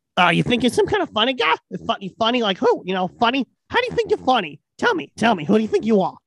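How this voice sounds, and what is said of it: Joe Pesci impression. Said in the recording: “my best impression is of Joe Pesci”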